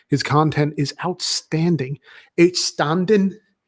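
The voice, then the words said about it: Bad put-on accent, unclear nationality. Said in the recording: “that was a terrible accent. I don't even know what nationality it was supposed to be.”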